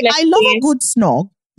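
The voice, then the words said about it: Attempted British accent, partly convincing. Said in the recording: “my accent is bad ... I cannot do it ... Some words you actually did. The inflection was there.”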